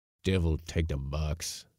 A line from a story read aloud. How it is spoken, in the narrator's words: muttered old Yorpie, who was a sort of Dutch African